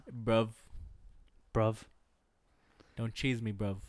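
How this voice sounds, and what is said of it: Put-on British slang accent. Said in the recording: “your British accent is so good ... I really hope you start talking like that”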